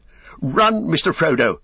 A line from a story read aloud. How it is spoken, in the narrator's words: cried